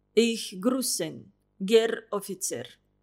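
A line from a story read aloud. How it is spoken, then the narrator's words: Old man's voice. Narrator (Russian): старческим голосом приветствовал он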